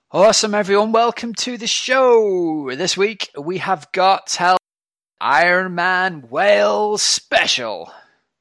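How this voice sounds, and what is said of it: Excited American wrestling announcer voice. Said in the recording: “I'm loving the excitement in your voice. ... talking like an American wrestling announcer”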